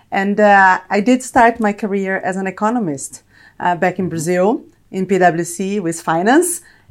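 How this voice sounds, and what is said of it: Brazilian Portuguese-accented English. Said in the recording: “probably you can tell from my accent, Brazilian and Italian”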